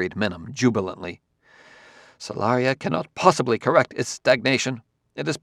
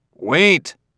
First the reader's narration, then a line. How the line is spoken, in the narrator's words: said Bailey again, more loudly